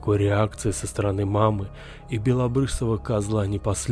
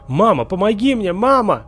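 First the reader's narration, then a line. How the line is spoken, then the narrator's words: Screaming at top of lungs. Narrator (Russian): я заорал во всю глотку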